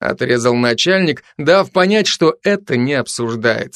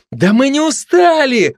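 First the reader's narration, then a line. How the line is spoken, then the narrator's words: Shout from the audience. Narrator (Russian): выкрикнул кто-то из зала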